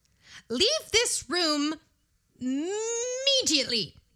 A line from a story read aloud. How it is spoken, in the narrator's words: she cried